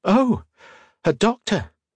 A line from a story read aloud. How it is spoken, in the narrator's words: Octavia exclaimed